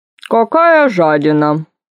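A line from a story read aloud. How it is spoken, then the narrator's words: Mumbling with full mouth. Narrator (Russian): Пробурчал Дарья с набитым ртом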